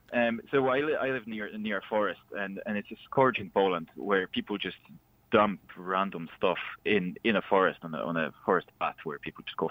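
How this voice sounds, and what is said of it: Foreign accent, Polish. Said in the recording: “by the accent, I come from a different country”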